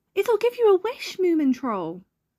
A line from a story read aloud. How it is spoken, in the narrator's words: he cried